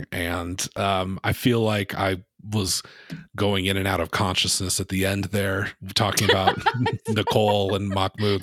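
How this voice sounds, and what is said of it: Rough, sick voice with coughing. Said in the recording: “sorry about my voice and the coughing”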